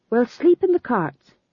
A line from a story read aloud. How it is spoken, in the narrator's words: said Tom John firmly